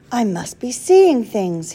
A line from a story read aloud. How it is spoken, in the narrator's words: whispered